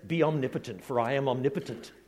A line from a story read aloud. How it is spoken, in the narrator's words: says the Lord